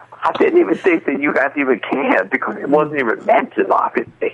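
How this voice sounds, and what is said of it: Choked-up, froggy emotional voice. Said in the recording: “getting emotional ... are you getting emotional? ... Sounds like it. ... A little froggy.”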